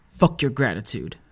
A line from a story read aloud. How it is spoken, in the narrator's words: I said bitterly